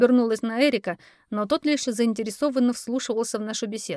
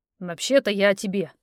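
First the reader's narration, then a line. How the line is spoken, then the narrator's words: Increasingly irritated. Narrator (Russian): голос Колина начал звучать раздраженно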